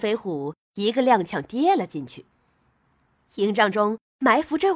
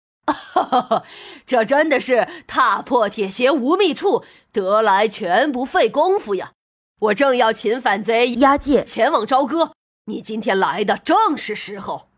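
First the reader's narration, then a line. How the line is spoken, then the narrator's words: Loud laughter. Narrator (Chinese): 朝田大笑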